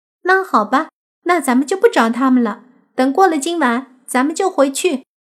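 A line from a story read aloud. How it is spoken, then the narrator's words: Loud, prompt. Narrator (Chinese): 小婷闻言，立即大声说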